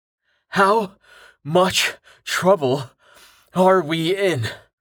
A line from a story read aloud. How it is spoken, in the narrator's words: Rain gasped as he struggled to keep up